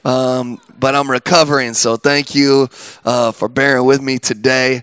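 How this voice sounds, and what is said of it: Hoarse, cracking, recovering voice. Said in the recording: “I'm sounding a little sultry today because I've been sick. I lost my voice, but it's just coming back. So if it sounds like I'm going through puberty, this isn't how I normally sound”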